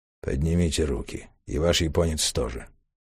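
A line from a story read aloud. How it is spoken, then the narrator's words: Tense command. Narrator (Russian): напряженным голосом приказал британец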